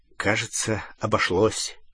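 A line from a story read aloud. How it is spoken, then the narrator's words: Muttered. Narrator (Russian): пробормотал Гарри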